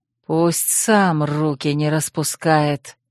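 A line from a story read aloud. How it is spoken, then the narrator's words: Hiss. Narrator (Russian): прошипел Рольер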